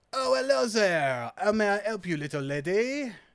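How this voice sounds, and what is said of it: Put-on character accent. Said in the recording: “How long is it going to be till we find out he's actually Cockney and this is all an act? ... I will do this accent for as long as my throat can take it ... I'm living for this voice”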